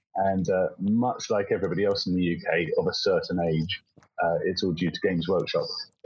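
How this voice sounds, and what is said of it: British English accent. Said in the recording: “You can probably tell from the accent, so I'm from the UK.”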